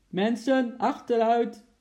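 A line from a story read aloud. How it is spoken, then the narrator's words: Police officer shouting. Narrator (Dutch): riep de politieagent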